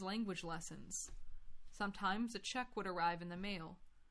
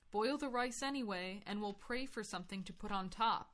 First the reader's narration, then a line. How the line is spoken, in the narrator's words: said